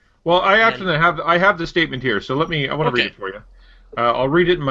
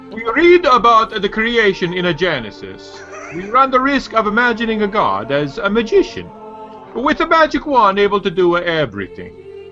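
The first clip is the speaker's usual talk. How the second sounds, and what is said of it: Mock papal reading voice. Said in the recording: “in my most popish voice,”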